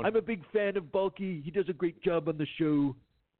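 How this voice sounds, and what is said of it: Bad impression of another person's voice. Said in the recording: “There's no better Trump impersonation... Oh, God, it's so bad.”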